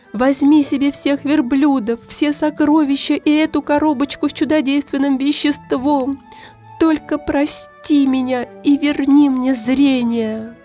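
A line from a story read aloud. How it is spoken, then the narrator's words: Sobbing plea. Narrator (Russian): я зарыдал и стал умолять его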